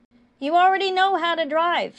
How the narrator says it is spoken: Sam hollered up to Bucky

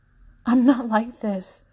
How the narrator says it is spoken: Alvaro says desperately

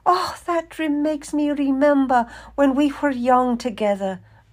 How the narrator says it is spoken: Maria cried

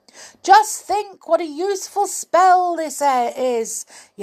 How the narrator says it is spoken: yelled the goblin to the passers-by

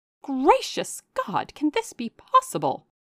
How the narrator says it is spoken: Marianne, in an ecstasy of indignation, cried

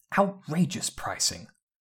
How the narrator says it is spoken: Ginny caught her muttering

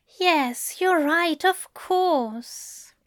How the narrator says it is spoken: Aziraphale said sadly

